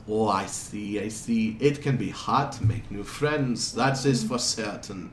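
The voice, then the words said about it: Shifting Italian, French, German-like accent. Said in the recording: “his accent keeps jumping around a lot ... At points it sounds like Italian, then it's almost French ... like German ... Like Germanic. He's just jumping all over the place”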